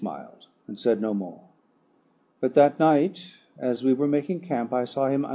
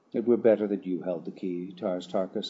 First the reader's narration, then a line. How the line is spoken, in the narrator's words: I replied